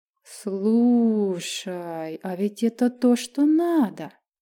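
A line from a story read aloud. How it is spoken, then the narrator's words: Drawling. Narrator (Russian): протянула Майя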